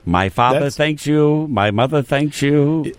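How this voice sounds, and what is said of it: Jimmy Cagney impression. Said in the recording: “my Jimmy Cagney impersonation”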